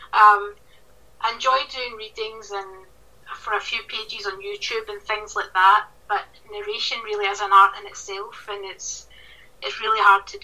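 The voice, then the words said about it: Broad regional accent. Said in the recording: “my accent might be a little bit broad for some”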